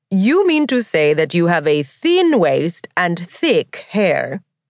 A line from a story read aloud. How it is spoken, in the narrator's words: Grace laughed, calling him out on his false modesty